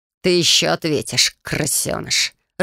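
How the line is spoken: Growl. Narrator (Russian): рыкнул на стыге Корнуэлл

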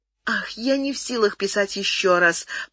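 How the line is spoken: Moaning. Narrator (Russian): простонала она

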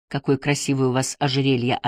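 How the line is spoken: Plain. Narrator (Russian): сказал он

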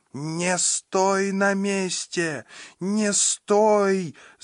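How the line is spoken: Shriek. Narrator (Russian): завизжала Сандра

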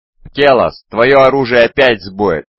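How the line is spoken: Shouted. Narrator (Russian): выкрикнул Машар

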